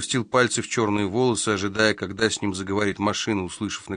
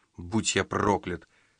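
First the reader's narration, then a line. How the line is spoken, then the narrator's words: Muttering. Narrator (Russian): пробормотал Томми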